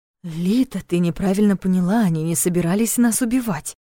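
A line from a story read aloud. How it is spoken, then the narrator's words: Fast and quiet. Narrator (Russian): произнес быстро, но тихо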